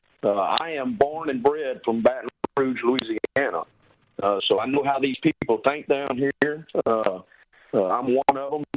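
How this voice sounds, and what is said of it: Strong Southern US accent. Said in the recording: “my accent ... I don't think anybody understood a word I said ... a Southern boy”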